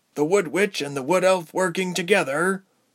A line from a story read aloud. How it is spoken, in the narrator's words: Berg wheezed